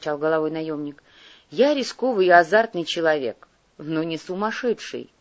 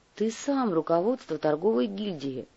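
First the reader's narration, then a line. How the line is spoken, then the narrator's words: Grumble. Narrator (Russian): буркнул Кортес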